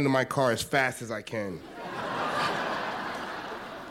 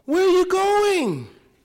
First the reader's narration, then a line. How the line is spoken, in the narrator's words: She yells